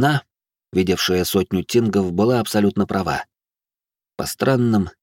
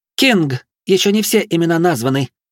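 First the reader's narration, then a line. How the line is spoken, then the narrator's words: Ringing shout. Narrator (Russian): звонко выкрикнула Травинка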